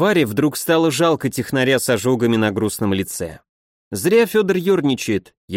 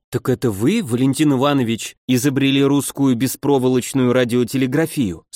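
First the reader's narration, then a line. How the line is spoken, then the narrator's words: Plain. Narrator (Russian): спросила Коваленкова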